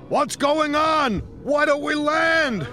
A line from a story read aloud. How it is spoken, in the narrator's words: shouted one man